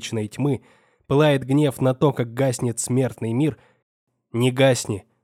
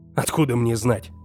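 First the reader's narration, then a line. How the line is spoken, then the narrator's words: Irritated. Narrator (Russian): раздраженно ответил я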